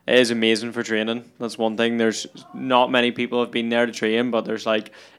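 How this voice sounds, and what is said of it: Northern Irish Belfast accent. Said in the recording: “people just love that accent ... I'm from Belfast in Northern Ireland”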